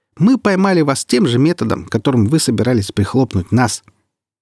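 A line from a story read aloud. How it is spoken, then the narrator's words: Serious, breathless after laughing. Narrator (Russian): Нахохотавшись в волю, муха Хью с трудом отдышалась и продолжила уже серьезно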